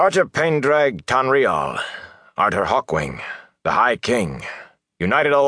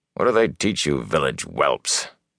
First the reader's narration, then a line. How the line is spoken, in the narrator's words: He snorted, he went on talking